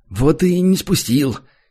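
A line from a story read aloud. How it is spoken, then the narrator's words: Sour, smirking. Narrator (Russian): кисло усмехнулся третий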